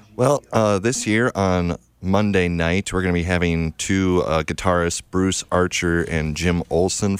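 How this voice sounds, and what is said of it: Great radio voice. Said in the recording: “You have a great radio voice.”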